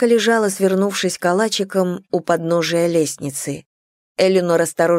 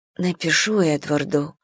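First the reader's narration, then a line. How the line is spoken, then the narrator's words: Whispered. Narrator (Russian): прошептала она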